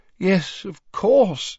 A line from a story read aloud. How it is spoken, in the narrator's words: said, rubbing his eyes wearily and looking morosely